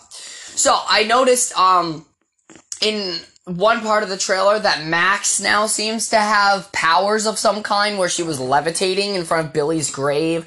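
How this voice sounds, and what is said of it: Sick, rough-sounding voice. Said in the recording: “Sorry, I'm still a little sick. My voice is still a little fucked up.”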